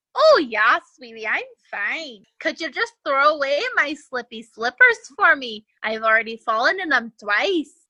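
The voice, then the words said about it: Put-on Swedish accent. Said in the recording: “When did ... become Swedish? ... It changed it her accent.”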